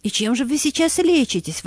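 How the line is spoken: Frightened exclamation. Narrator (Russian): воскликнула испугавшаяся Анна Сергеевна

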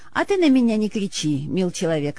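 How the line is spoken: Calm old man. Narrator (Russian): сказал спокойно старик

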